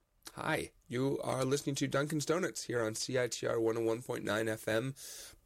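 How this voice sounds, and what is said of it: Sick-sounding voice. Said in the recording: “as you can maybe hear from my voice, I'm sick.”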